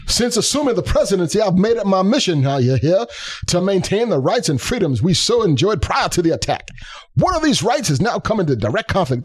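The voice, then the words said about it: Cartoon rooster voice, like Baptist preacher. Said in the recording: “I'll try my best foghorn leghorn ... This is not quite foghorn leghorn. It's gotten more like Baptist preacher.”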